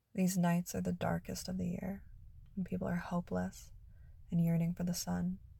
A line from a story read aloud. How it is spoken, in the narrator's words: he murmured gently